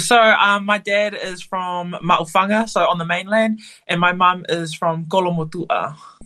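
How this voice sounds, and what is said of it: New Zealand accent. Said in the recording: “I can pick up on the Kiwi accent”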